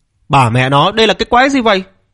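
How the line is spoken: Stunned shouting. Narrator (Vietnamese): Tiết Bá Thiên nhìn thấy cảnh này mà cảm thấy choáng váng, rồi la lên

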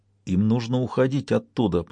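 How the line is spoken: Muttered. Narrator (Russian): пробормотал Жанги

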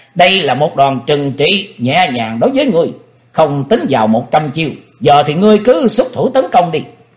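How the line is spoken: Loud laughing. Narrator (Vietnamese): Chàng cười lớn nói

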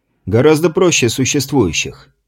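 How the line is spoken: Meaningful tone. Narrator (Russian): многозначительным тоном произнес Романов

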